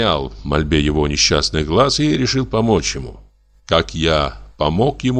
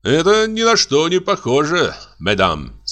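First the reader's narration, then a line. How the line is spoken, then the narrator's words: Joking tone. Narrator (Russian): сказал я шутливым тоном, обращаясь к дамам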